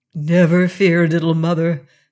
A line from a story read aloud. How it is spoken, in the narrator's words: answered Martin